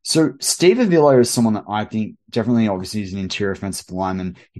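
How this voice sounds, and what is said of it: Speaker's own noticeable accent. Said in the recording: “Apologies, you've got my accent there to deal with.”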